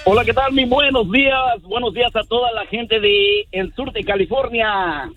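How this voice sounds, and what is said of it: Radio announcer-like voice. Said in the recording (Spanish): “voz de locutor ... Tiene mejor voz que el Feyo y que el Pelón ... Este sí puede ser locutor”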